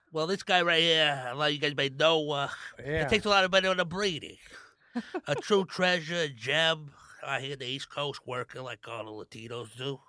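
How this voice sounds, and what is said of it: Put-on New York accent, Tony Soprano. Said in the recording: “With a New York accent, bro, Tony Soprano. ... You sound like you have sleep apnea”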